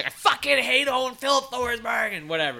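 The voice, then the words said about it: Imitates an annoyed fantasy hockey commenter. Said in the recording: “That was my best daily faceoff board impression ... make that same sound you just made”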